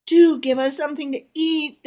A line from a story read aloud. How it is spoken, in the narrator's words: they whined